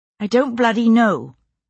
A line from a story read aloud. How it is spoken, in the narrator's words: I said crossly